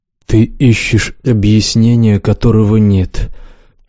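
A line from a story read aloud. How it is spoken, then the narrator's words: Gloomy. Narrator (Russian): мрачно сказал Лукс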